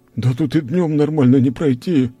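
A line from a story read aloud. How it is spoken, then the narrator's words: Moaning again. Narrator (Russian): снова застонал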